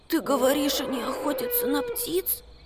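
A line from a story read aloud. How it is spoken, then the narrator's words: Barely audible mutter. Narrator (Russian): пробормотал Макс еле слышно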